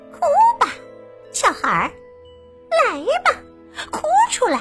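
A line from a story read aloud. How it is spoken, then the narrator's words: Witch, laughing softly. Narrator (Chinese): 女巫一边笑一边小声的说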